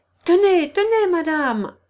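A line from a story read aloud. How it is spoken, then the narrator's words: Husband shouting. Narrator (French): lui cria son mari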